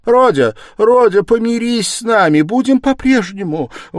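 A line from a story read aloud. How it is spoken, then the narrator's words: Pleading mother's cry. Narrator (Russian): воскликнула бедная мать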